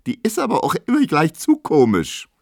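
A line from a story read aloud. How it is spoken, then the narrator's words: Squealing. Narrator (German): quiekt Emma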